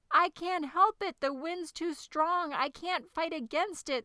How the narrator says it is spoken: screamed the dragon

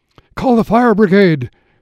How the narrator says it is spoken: cried Mrs

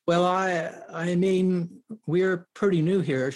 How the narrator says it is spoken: stammers

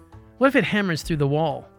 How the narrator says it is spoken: asked his son

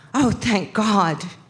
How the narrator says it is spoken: She … runs up to her, gasping

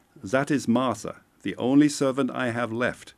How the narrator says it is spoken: the secretary chuckled

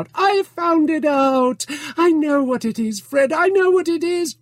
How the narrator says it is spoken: Scrooge's niece cried out

